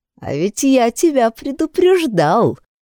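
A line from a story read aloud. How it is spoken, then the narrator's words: Snide, mocking. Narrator (Russian): ехидно улыбнулся Серый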